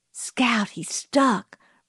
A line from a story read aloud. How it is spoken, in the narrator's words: breathed Jim